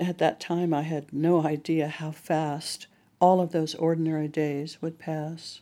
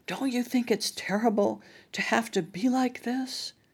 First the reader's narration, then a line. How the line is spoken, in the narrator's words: In a hoarse whisper, hard for me to hear, began